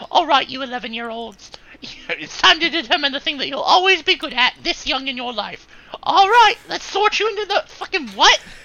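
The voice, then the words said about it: Put-on British accent. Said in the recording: “why did you start doing a British accent?”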